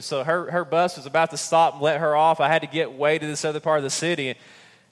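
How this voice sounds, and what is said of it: Southern American accent. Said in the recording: “from the mountains of East Tennessee in a southern accent”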